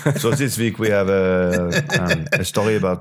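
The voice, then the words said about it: Put-on French accent. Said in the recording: “should I talk in a French accent? ... I'll add a bit of bass to the voice as well ... I'm impressed with that.”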